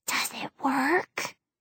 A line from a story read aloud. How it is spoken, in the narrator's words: whispers